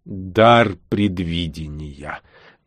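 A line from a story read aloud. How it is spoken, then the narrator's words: Muffled inner voice. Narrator (Russian): глухо отозвалось в мыслях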